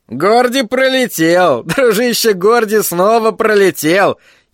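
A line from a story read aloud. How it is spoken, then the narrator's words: Grating, screechy giggle. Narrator (Russian): хихикнул Тедди так, как только он, Тедди Дюшан, мог хихикнуть, словно водил ржавым гвоздем взад-вперед по стеклу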